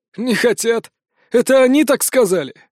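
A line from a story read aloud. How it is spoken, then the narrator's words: Old man laughing. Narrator (Russian): засмеялся старик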